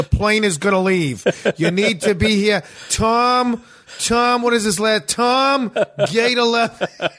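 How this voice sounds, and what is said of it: Exaggerated Boston accent. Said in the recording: “Boston having a Boston accent”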